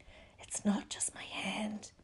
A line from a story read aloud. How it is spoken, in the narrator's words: he whispered